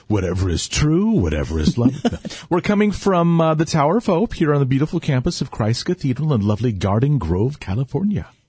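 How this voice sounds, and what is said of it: Smooth dulcet announcer-style radio voice. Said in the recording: “your beautiful dulcet tones, your radio voice ... See, now that had a whole new meaning with your voice.”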